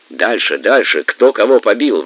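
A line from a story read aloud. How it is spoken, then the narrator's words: Eager group exclamation. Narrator (Russian): воскликнули монгольские ханы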